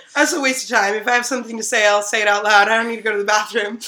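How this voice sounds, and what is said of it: American accent. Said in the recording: “you have an accent ... You're from America ... people freak out in South Africa if you have an American accent”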